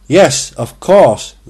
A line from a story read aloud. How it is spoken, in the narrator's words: they called out